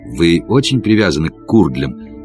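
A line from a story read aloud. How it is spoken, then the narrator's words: Quiet question. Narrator (Russian): спросил я тихо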